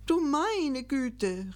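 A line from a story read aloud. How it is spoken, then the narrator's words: Called out. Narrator (German): rief Gickelgei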